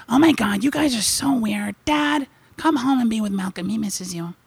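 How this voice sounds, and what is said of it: Voices the family dog. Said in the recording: “Mick's always with me because I can just do his voice. Nicole does it too.”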